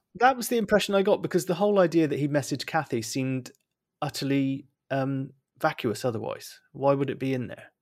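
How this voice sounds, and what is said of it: Bristolian English accent. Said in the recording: “my Bristolian accent has come back in force ... it's nice to hear um, the sounds of home”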